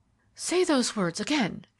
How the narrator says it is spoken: she cried

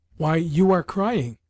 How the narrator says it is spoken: cried Lubotshka suddenly

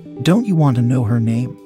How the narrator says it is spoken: said

